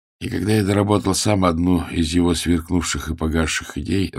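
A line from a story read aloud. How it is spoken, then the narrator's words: Tired voice. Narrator (Russian): рассказывал усталым голосом Эрвин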